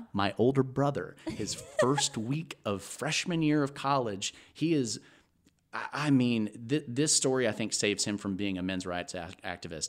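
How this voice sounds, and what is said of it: Southern drawl. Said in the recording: “you've also just gotten more Southern, like as you've been talking about this ... Into this little drawl.”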